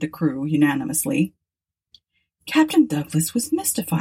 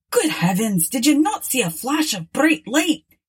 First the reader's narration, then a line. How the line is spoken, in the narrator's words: exclaimed the captain angrily, for he thought he was being made a fool of